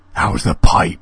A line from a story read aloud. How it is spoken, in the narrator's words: sneered Alan menacingly